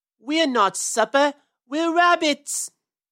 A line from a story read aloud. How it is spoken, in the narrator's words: yelled Peter